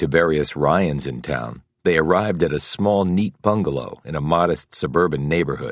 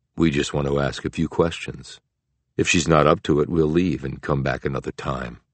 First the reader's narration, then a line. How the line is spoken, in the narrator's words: Bogart said smoothly